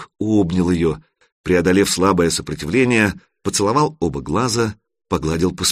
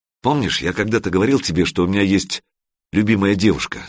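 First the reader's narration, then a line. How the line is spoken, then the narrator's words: Plain. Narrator (Russian): спросил Санек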